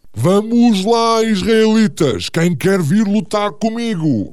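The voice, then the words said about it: Booming thunderous giant voice. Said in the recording (Portuguese): “com voz de trovão”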